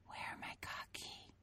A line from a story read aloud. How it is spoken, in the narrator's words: Matea whispered, but it was half-hearted